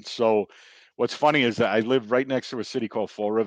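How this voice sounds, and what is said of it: Boston accent. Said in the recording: “your accent ... the Boston accent.”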